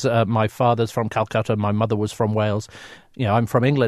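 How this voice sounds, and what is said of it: British English accent. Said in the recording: “I'm a very proud Brit, as you can tell from my accent”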